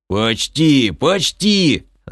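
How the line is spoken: Yelling. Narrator (Russian): заорал Крей

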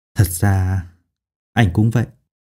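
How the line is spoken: Whisper. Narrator (Vietnamese): thì thào nói

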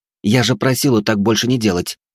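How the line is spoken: Irritated girl. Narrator (Russian): раздраженно произнесла девушка

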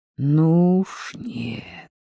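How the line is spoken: Through gritted teeth. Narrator (Russian): процедил сквозь зубы Евгений

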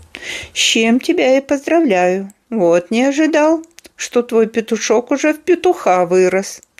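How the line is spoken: Laughing. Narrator (Russian): рассмеялся Эрб

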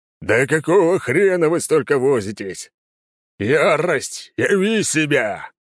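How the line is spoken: Growling. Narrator (Russian): рыкнул Лёва

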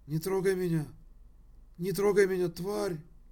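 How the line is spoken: Muffled moaning in sleep. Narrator (Russian): Ник приглушенно стонал во сне, с кем-то ругался

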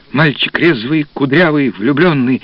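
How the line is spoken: Soft. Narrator (Russian): мягко проговорил постановщик

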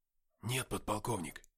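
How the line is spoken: Whispered reply. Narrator (Russian): также шепотом ответил я

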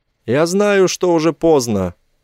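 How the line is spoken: Grumbling. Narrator (Russian): проворчал Сенборн

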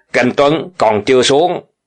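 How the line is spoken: Sharp shout. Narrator (Vietnamese): Đằng Dực quát

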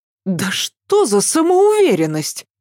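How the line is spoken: Angry exclamation. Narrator (Russian): гневно воскликнула Ася

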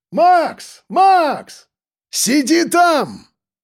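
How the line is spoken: Shout. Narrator (Russian): крикнул я

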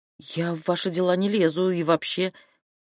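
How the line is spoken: Confused. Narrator (Russian): Зинка сказала растерянно

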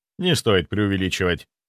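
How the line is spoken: Dry, damping enthusiasm. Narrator (Russian): ответил я сухо, стараясь сбить градус восторга

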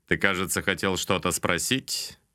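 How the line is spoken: Snide question. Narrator (Russian): ехидно поинтересовался он у меня

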